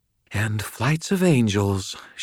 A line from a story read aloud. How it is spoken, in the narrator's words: panted, her breath coming faster, her eyes alight with excitement